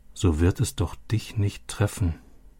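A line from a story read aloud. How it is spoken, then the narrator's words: Quiet repetition. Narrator (German): wiederholte Robbie leise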